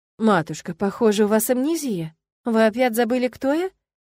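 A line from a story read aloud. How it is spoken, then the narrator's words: Sympathetic gentle sing-song. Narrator (Russian): Сочувственно пропела Эллен и ласково обратилась к Маргарите, как к ребенку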